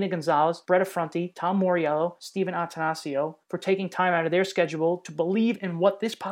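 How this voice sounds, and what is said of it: Usual voice. Nothing is said of it.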